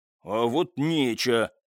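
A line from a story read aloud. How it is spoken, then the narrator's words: Softened grumbling reply. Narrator (Russian): пробурчал в ответ истопник, правда, заметно сбавив тон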